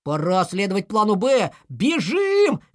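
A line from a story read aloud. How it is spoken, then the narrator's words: Shout. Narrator (Russian): крикнул Пал Палыч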